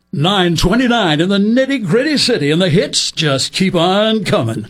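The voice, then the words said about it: Excited radio DJ announcer voice. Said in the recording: “don't make me use my announcer voice ... the disc jockeys that they had to sound exciting”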